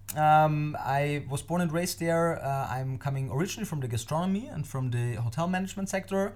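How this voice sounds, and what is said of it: Austrian-accented English. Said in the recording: “as you might already have heard, I'm not born and raised in any English-speaking country. I'm from Austria ... now living in Germany. I'm trying my best to speak proper English”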